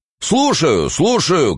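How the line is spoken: Bass voice shouting below. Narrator (Russian): кричал басок в яме

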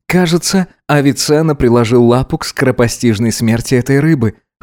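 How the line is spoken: Wry snort. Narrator (Russian): хмыкнул Гидеон

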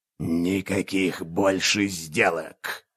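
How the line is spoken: Growling. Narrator (Russian): зарычал

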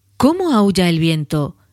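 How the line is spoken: Exclaiming. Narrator (Spanish): exclamó

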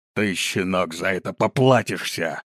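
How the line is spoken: Big man's angry growl. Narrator (Russian): зарычал высокого роста здоровяк

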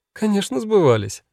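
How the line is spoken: Laughing. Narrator (Russian): рассмеялась она

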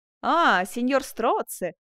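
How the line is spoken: Exclaiming. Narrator (Russian): воскликнул он

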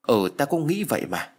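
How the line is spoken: Stammering. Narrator (Vietnamese): nó lắp bắp trả lời

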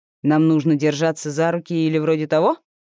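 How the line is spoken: Wry snort. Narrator (Russian): хмыкнул Андрей

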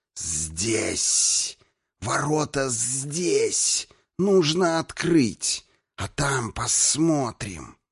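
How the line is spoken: Hiss. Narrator (Russian): прошипел

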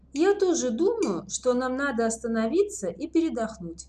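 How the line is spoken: Plain. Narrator (Russian): сказала Леся

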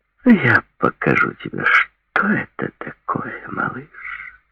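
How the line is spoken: Whispered. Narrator (Russian): прошептала она

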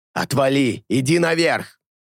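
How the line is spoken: Growl. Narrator (Russian): прорычал Алета

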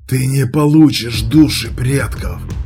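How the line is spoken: Rasped. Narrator (Russian): прохрипел Анвар

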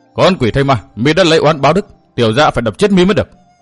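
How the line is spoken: Loud shout. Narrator (Vietnamese): Thường Ngộ Thanh quát lớn

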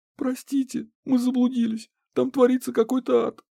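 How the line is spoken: Sobbing, feigned frightened aristocrat. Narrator (Russian): всхлипнула Банши, удивив меня тем, как отлично у нее получилось сыграть перепуганную аристократку

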